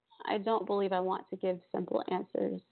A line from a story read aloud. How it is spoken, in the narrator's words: said the vampire